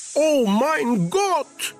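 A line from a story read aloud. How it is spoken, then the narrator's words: Exclamation. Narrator (Russian): воскликнул Пин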